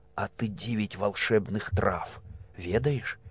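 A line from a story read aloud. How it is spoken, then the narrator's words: Mysterious whispered question. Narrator (Russian): Переходя на таинственный шепот спросила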